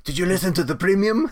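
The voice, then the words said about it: Poor French-Canadian accent attempt. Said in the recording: “That is not a French-Canadian accent... that was terrible. That was awful... Horrible.”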